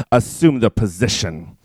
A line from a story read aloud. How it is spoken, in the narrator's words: she snarled